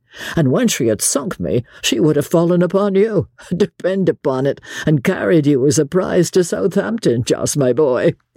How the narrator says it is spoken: said laughingly to his companion

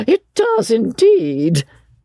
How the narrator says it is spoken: cried Miss Lavish

